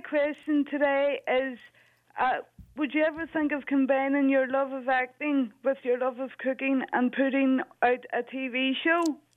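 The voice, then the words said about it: Irish accent. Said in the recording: “I was raised by an Irish nanny from Belfast ... So your accent is like home for me”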